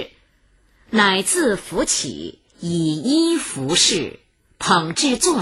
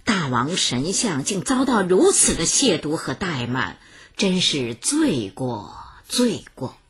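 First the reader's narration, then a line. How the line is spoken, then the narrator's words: Repeated sighing. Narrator (Chinese): 一个人 连连叹息道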